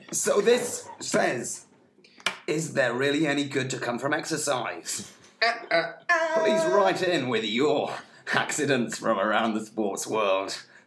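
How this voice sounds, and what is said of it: Slightly hoarse, croaky voice. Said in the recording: “I have a bit of a frog in my throat.”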